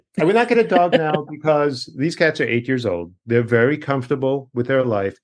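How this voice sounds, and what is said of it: Long Island accent. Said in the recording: “if you want to hear the Long Island accent, just keep hearing me say the word dog”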